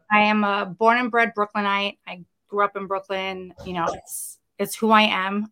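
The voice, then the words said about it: Brooklyn New York accent. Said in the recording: “that's the first thing people point out, is obviously the accent... anybody from New York City, each borough has a slightly different accent”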